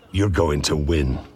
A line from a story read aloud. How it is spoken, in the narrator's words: Hagrid growled